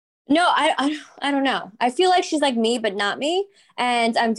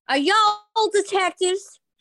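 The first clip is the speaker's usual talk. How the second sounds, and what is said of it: Put-on Southern accent. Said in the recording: “I should have an accent ... I think she should be South ... Maybe I could be like a Southern”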